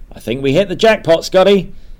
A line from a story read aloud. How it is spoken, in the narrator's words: she starts screaming